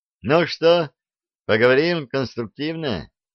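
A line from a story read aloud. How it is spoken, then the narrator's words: Cheerful adventurer's suggestion. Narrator (Russian): весело предложил авантюрист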